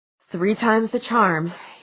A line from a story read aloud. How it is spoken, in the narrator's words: he panted